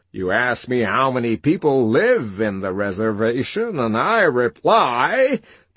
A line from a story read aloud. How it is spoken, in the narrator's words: triumphantly